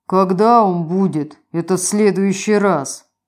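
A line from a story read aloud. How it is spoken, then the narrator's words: Hollow sigh. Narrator (Russian): Гулко вздохнул Брун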